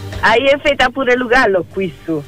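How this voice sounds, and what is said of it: Speaks in Camerino dialect. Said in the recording (Italian): “Dialetto di Camerino?”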